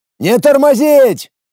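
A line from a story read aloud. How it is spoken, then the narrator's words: Breathless bark. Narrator (Russian): С трудом набрав в горящие легкие воздуха, гаркнул я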